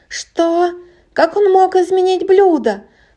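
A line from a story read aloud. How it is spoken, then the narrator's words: Shrieking. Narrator (Russian): провизжал он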